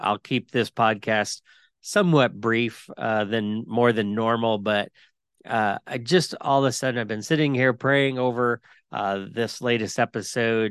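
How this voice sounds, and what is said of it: Congested, sick-sounding voice. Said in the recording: “forgive my voice. I will tell you right off the bat, I have been battling a cold, sinus stuff.”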